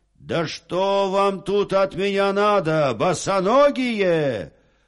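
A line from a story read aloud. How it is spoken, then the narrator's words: Exasperated shout. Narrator (Russian): Солдат закричал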